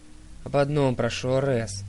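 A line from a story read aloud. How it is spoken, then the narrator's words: Sighing. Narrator (Russian): вздохнул Дионис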